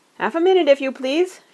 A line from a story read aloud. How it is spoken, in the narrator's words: shouted the man over his shoulder